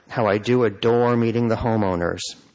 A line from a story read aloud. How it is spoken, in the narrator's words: she said with a derisive sigh